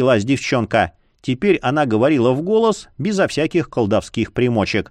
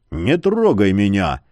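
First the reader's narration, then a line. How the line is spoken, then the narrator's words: Growling. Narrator (Russian): рыкнул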